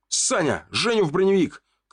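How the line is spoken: Shout. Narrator (Russian): крикнул ему

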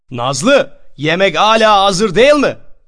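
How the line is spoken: Shouting upstairs. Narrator (Turkish): diye yukarı kata bağırırdı

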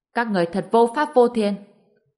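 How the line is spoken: Angry man. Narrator (Vietnamese): Người đàn ông bị xô ngã xuống đất, giận dữ nói

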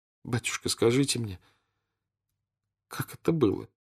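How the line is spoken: Tearful question. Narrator (Russian): спросила она сквозь слезы

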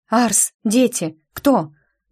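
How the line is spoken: Hoarse, harsh voice. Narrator (Russian): Голос звучал хрипло, резко, как при простуде

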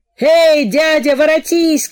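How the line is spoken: Shouting from a crowd. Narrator (Russian): кричали из ватаги

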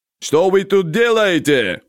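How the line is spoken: Yelling. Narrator (Russian): заорал Хавчикян на взводников

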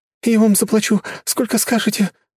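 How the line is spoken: Frightened babbling. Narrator (Russian): начала лепетать она

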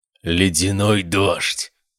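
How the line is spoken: Hissed, inhuman overtones. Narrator (Russian): процедил голосом, в котором слышались нечеловеческие обертоны

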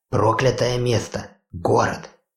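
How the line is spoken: Quiet female reply. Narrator (Russian): ответила также тихо девушка

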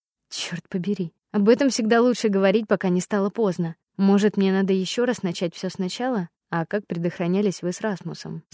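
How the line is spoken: Plain question. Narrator (Russian): спросил Генри

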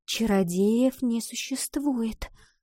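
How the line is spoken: Whisper. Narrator (Russian): снова прошептала Ива

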